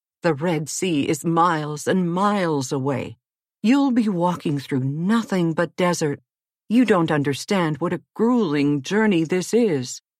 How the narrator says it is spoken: exclaimed the queen

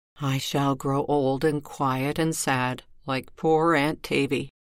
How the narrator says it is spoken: she murmured to herself

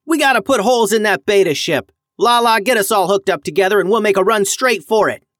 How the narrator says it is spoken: yelled Max

